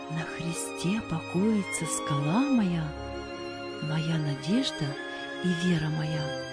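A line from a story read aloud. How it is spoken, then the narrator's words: Soft singing. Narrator (Russian): он тихонько напевал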